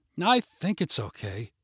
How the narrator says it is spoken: muttered

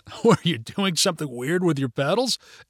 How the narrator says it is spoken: asked Mitch with a laugh

